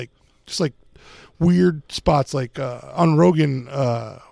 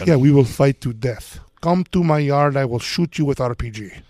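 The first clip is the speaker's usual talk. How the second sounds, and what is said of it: Put-on Ukrainian accent. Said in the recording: “I'm just going to make up a Ukrainian accent.”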